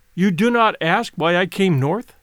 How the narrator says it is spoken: she asked

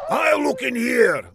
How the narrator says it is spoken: Laszlo shouted

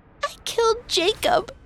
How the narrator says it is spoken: she sputtered

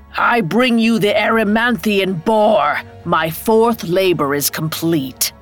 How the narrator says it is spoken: Hercules bellowed

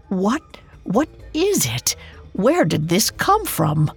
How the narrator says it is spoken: Margaret stammered

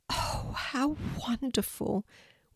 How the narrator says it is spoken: whispered Kelti

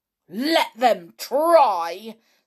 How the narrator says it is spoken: said George in her fiercest voice

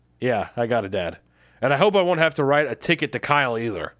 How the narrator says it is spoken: I sighed

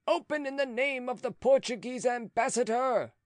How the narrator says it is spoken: someone cried

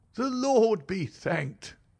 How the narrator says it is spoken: cried the old woman

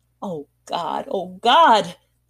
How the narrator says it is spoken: he groaned

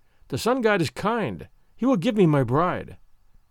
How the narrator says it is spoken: went cheerfully, saying to himself

